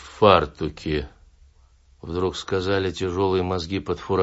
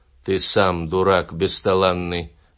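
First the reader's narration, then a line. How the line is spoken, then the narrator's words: Plain. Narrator (Russian): ответили мне мозги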